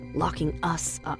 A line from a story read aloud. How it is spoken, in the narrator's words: I whispered